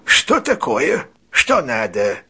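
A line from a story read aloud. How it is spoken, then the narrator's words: Hoarse question. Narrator (Russian): спросил он сиплым голосом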